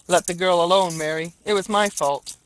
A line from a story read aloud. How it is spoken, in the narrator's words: said the husband